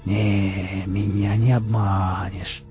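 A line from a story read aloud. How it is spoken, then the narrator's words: Drawl with dull hatred. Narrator (Russian): протянул сталкер с глухой ненавистью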